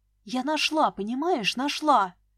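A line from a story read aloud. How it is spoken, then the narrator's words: Hissed into phone. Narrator (Russian): шипела я в трубку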